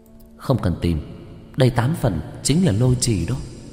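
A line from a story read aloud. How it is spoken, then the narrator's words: Whisper. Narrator (Vietnamese): Dương Công Tử thì thào nói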